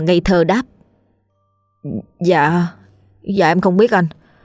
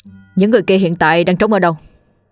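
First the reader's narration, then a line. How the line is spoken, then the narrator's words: Stern voice. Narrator (Vietnamese): Anh cảnh sát nghiêm giọng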